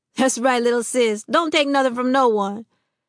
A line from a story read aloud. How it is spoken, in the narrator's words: The other Black Panthers laughed and told Fern